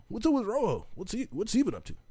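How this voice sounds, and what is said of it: Hack impersonation of a white guy. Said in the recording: “that's a kind of a hack impersonation”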